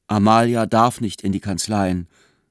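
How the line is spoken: Plain. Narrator (German): sagte Barnabas

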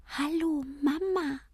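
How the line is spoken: Squeaky voice. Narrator (German): piepst er

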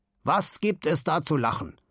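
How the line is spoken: Dangerous growl. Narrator (German): knurrt Simon, und sein Knurren hört sich gefährlich an

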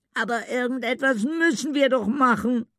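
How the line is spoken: Tearful cry. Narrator (German): rief sie unter Tränen

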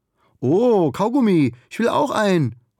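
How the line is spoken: Called out. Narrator (German): ruft Ugur

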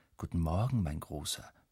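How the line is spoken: Quiet. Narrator (German): sagt Mama leise

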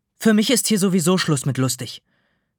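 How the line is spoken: Somewhat quieter. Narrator (German): etwas leiser sagt sie

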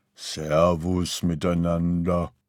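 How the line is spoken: Deep gentle good-natured grumble. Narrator (German): lächelte er gutmütig und brummte mit tiefer, sanfter Stimme

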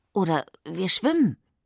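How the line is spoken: Hesitant addition. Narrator (German): fügt sie zögernd hinzu

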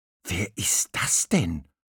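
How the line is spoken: Whispering. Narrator (German): flüsterte Murmeltier

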